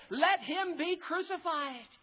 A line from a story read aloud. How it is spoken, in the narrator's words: they cried out all the more, saying